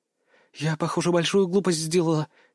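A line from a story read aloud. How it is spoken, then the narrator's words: Frightened. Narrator (Russian): испуганно произнесла она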